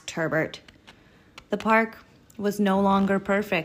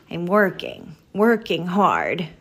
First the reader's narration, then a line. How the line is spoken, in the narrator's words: Maggie grumbled